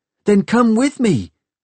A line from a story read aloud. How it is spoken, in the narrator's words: she had pleaded